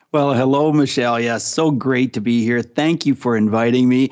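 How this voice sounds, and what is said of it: Canadian accent. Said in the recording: “when they hear your accent, because it's the second you say hello, people should identify with it ... I am from Canada. I'm from Ontario, Canada.”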